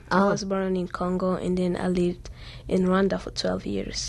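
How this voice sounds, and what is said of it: Slight foreign accent. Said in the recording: “You have a bit of an accent”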